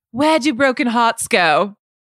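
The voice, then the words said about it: Put-on English accent. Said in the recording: “look who's got the English accent now.”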